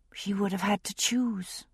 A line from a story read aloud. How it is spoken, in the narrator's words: she said softly